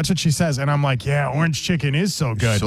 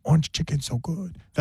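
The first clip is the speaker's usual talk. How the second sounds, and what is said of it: Quiet put-on Chinese accent. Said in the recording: “I won't do the voice. ... I've been told by HR not to do that voice. ... I'll do it quietly. ... You're bringing in a whole new dialect now. ... it's like a Houston Chinese accent”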